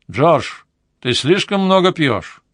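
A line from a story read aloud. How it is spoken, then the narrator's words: Loud clear voice. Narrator (Russian): голос, который громко и четко произнес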